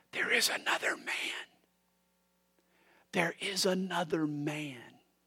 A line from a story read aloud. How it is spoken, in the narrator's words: They heard him whisper